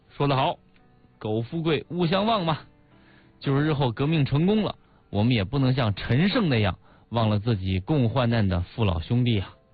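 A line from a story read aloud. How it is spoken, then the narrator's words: Admiring. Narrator (Chinese): 毛泽东赞叹说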